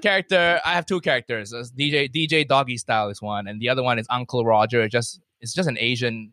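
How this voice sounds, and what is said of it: Usual voice. Nothing is said of it.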